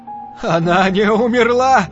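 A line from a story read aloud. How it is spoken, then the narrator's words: Shouting. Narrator (Russian): закричал он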